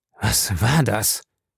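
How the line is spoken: Hoarse question. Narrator (German): fragte er heiser

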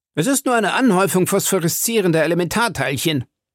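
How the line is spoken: Officer calling out. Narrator (German): rief einer der Offiziere

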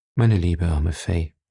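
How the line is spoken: Gentle. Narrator (German): sagte sanft

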